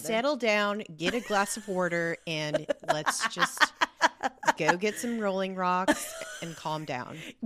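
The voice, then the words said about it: Put-on regional Pennsylvania accent. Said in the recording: “I'm always so impressed by your accents ... You're very good ... the accent like ... of that specific area of Pennsylvania ... it's a hard, hard accent”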